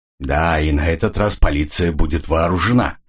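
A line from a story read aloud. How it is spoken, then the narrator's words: Grim. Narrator (Russian): мрачно добавил Ян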